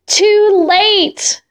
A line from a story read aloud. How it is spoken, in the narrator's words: the eagle cried